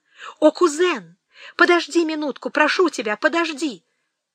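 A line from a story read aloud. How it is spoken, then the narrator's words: Exclaimed. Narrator (Russian): она воскликнула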